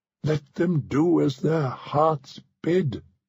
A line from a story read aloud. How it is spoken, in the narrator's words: she cried